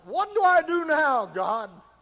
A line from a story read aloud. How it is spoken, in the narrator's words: Have you been screaming out